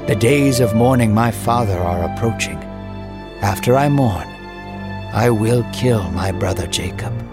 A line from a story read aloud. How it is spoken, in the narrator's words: Esau sighed a deep breath and said